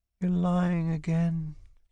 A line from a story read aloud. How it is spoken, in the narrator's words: she says wearily, like a helpless child